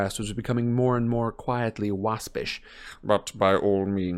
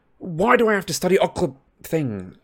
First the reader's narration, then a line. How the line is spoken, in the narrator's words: He blurted out